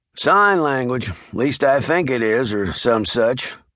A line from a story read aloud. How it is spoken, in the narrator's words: Leroy volunteered wearily